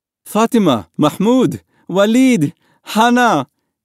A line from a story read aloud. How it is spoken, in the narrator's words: his father cried